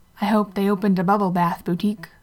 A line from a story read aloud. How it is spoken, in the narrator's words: Molly quipped